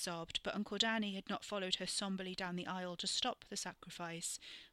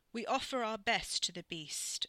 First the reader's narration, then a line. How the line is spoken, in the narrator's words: Uncle Danny intoned over her